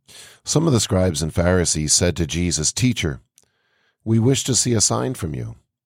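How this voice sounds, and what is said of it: Slightly raspy voice. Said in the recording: “my voice is a little bit raspy today”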